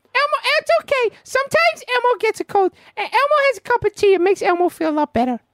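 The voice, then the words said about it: Elmo character voice. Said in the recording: “Elmo, thank you for doing an impression of him.”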